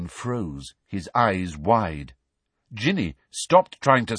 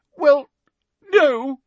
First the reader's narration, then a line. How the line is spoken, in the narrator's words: sobbed Hermione